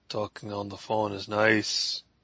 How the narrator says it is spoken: he murmured

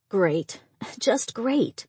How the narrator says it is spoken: Angie muttered

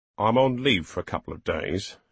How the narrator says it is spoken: he said grimly

